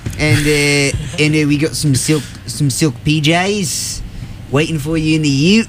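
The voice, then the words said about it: Tom Hanks with Australian accent. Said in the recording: “it's Australian Tom Hanks this time”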